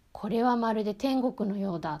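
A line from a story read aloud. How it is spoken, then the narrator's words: Plain. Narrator (Japanese): って言ったらしい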